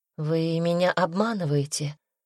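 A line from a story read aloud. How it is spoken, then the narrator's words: Timid, forced out. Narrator (Russian): робко выдавила она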